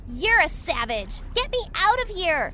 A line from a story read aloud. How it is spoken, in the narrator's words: shouted the thief